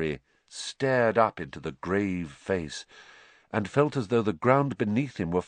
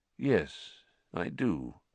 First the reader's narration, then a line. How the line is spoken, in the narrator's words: said Dumbledore quietly